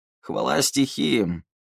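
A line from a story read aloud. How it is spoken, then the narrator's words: Relieved hoarse wheeze. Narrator (Russian): С явным облегчением просипел привратник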